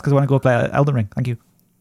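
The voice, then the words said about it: Very fast speech. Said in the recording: “I'm talking very fast”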